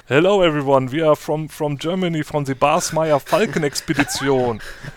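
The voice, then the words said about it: English with strong German accent. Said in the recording (German): “Englisch redet mit einem starken deutschen Akzent”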